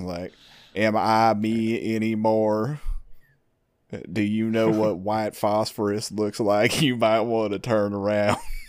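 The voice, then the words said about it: Imitated put-on southern accent. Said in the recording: “his southern accent is not great ... this sounds like somebody doing a southern accent.”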